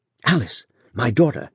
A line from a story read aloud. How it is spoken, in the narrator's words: exclaimed Mr